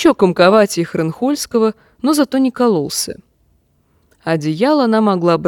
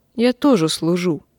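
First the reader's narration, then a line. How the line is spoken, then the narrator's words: Mumble. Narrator (Russian): пробормотала она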